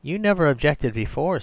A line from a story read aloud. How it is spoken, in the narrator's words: said Diana Duke rather stiffly